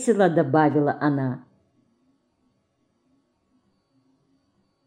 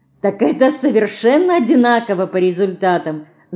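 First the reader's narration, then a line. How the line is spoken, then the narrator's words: Laughing. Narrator (Russian): засмеялась Марина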